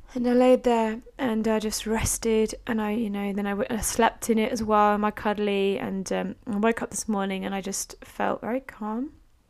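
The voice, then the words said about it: Wispy, low-energy voice. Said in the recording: “my voice is a little bit wispy today, and you might notice that I feel a little bit low energy”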